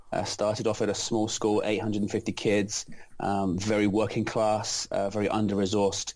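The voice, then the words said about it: London English accent. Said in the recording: “as you can tell from the accent, I'm not originally from America. I'm from London, England”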